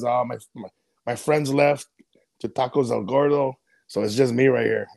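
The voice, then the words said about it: Put-on Mexican accent. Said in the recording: “I love the Mexican accent, though ... Nailed it.”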